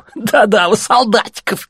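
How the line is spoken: Laughing. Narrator (Russian): засмеялся другой

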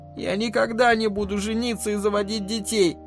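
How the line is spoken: Tearful announcement. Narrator (Russian): объявила Элли сквозь слезы

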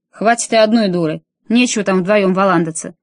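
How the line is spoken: Barking. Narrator (Russian): рявкнул он

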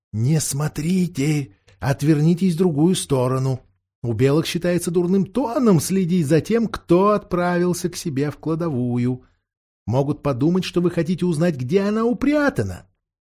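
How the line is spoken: Whisper in the ear. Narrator (Russian): Боровик шепнул на ухо Каспиану

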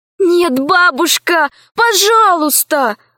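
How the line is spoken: Pleading. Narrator (Russian): взмолилась Алиса

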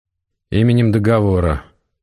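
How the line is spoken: Dry, impassive announcement. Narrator (Russian): как всегда сухо и бесстрастно объявил Максим

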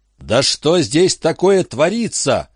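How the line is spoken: Hysterical frightened yelling. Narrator (Russian): орал в истерике перепуганный разум

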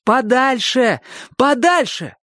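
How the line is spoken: Shout. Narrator (Russian): крикнул Чик

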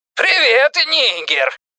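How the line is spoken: Shout then shrill piercing laugh. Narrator (Russian): прокричал Пеннивайз, и тут же раздался его резкий пронзительный смех, словно в ухо насыпали осколки стекла

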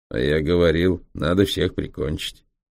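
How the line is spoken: Grumpy, cantankerous tone. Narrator (Russian): все тем же сварливым тоном вставил германо-китаец

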